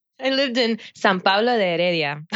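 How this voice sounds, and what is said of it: Costa Rican Spanish accent. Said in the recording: “are you ready for this Tico accent?”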